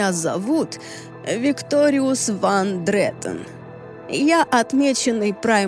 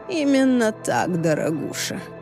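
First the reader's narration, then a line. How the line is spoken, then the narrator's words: Purring. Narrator (Russian): промурлыкал Викториус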